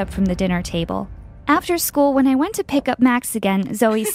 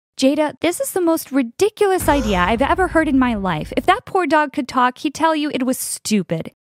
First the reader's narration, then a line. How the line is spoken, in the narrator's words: laughed